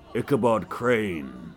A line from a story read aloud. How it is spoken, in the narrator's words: Brom's voice thundered